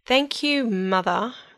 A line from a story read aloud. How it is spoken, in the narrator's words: Rapunzel answered through gritted teeth